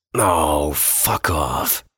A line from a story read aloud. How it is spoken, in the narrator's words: groaned